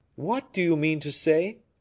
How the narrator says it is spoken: cried the king, surprised

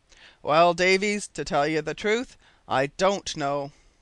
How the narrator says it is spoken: he said in a rather solemn tone

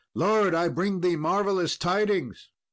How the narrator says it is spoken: a squire ran in and cried

